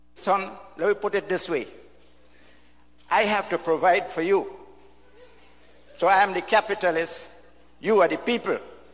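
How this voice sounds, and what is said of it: Really thick accent. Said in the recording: “the gentleman speaking has a really thick accent”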